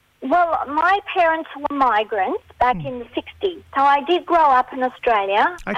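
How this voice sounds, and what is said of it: Mixed non-Australian accent. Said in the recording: “Got a bit of an accent there... I have a mixture of an accent”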